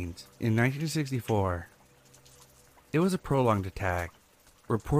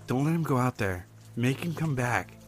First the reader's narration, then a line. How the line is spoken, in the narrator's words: pleaded